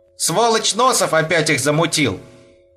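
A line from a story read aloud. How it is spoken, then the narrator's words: Nearly shouted. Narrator (Russian): почти выкрикнул Саша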